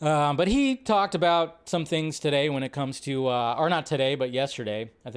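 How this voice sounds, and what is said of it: Usual voice. Nothing is said of it.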